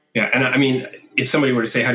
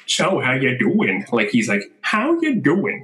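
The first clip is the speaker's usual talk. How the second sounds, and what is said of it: Peter Griffin impression, weird questioning tone. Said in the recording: “I can sound like Peter Griffin ... how do you do Peter Griffin? ... I don't even know what his accent is. It's like a mishmash of three ... He's always asking questions in a really weird tone ... the intonation was perfect”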